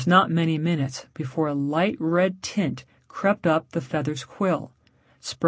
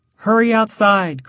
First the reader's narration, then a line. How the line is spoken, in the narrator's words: cried Peter